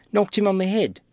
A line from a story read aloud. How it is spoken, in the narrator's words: exclaimed Clamp